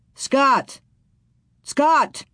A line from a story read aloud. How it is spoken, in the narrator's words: He shouted